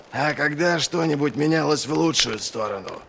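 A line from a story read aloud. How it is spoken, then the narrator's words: Grumble. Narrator (Russian): проворчал Доу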